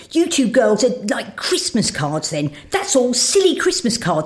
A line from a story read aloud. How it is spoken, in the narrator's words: said Robert angrily